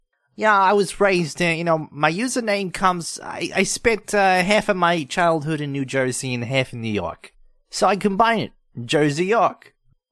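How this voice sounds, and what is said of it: East Coast American accent. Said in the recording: “a very good East Coast accent”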